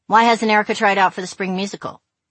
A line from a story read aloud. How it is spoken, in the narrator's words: he asked her